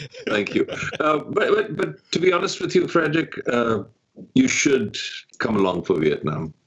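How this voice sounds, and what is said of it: Distinctive pleasant accent. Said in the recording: “you have the coolest accent. You should read audiobooks”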